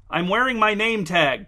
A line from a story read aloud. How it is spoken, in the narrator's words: blurted Blair